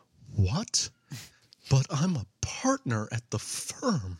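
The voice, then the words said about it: Impression of a white guy's voice. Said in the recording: “I'm going to try to do that impression of this guy the best I can ... trying to do a white guy ... that is legitimately how he sounded”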